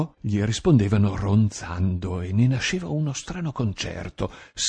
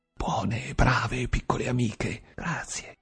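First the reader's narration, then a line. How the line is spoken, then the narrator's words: Laughing whisper. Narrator (Italian): Ridendo lo sentivo sussurrare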